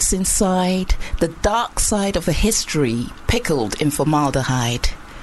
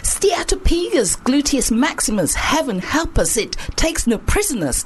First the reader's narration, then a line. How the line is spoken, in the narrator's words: they hollered